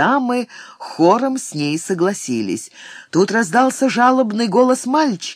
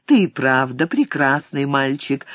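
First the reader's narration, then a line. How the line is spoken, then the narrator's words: Laughing agreement. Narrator (Russian): согласилась госпожа Эцу и снова засмеялась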